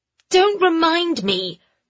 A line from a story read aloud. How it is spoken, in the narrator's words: Dido said angrily